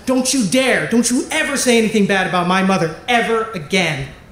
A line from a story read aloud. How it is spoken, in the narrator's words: Sal, she snapped back and she said